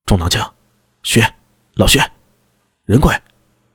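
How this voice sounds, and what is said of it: Lowered voice, quiet calling. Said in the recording (Chinese): “压低声音， 小声呼唤”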